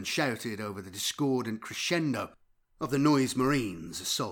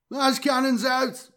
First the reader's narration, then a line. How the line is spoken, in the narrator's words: yelled back a crewman, blood pouring from a gash on his forehead